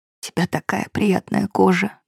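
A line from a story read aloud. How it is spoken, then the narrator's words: Whisper. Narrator (Russian): прошептал он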